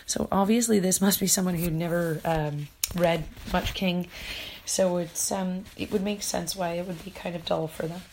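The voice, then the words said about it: Hoarse, fading voice. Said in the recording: “I appear to be losing my voice mid-podcast.”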